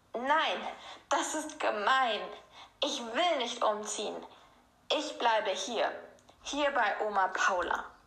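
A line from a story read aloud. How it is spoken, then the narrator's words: Tearful loud scream. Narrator (German): Ihre Augen füllten sich mit Tränen und sie schrie, so laut sie konnte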